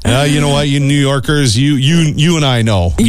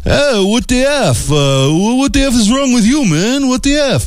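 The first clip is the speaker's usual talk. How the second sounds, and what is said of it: Put-on New York City accent. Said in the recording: “That was my New York City accent.”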